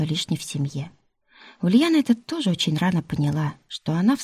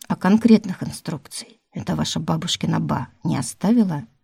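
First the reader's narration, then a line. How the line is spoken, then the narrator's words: Plain. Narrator (Russian): спросил Милецкий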